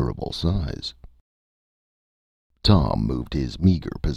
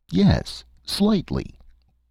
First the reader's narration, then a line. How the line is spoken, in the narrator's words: Tom replied firmly